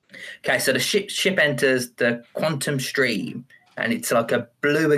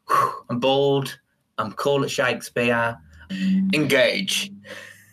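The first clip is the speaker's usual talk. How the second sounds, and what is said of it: Impression of Captain Picard. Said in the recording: “do an impression of him ... Picard”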